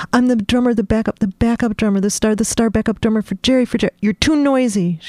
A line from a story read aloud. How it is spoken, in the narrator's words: she snapped